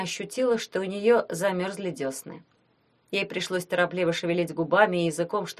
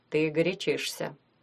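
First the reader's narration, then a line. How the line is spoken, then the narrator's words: Calm. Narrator (Russian): спокойно сказал Глеб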